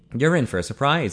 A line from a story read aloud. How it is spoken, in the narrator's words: Ian replied